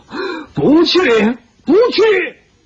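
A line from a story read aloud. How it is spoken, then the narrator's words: Increasingly shrill wail. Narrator (Chinese): 他越叫越是凄厉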